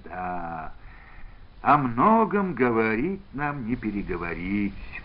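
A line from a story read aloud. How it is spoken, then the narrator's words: Sighing. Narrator (Russian): вздохнул Антон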